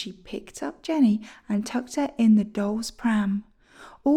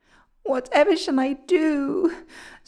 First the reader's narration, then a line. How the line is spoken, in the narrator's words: sobbed Jenny